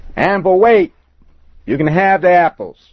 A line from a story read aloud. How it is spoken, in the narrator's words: shouted louder